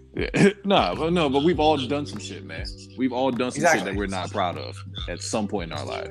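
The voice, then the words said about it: Country accent. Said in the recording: “that was my country accent just came out”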